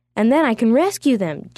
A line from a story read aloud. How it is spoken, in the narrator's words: Ji-Woong said happily